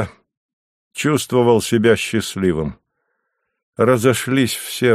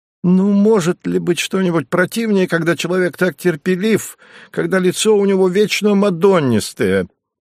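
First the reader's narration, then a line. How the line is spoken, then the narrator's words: Exclaimed. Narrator (Russian): воскликнул актер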